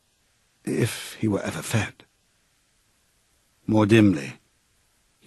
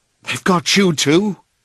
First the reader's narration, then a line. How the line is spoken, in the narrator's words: he cried